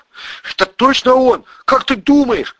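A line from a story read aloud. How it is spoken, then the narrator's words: Shouted. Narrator (Russian): крикнул Игорь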